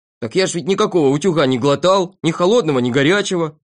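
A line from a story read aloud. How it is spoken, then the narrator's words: Shouting. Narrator (Russian): кричал Торопышка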